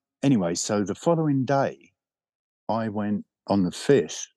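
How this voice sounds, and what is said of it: Usual voice. Nothing is said of it.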